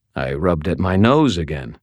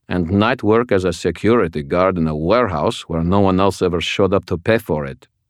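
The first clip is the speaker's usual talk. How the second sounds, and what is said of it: Very thick French accent. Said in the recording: “He spoke in a French accent so thick that it barely qualified as English.”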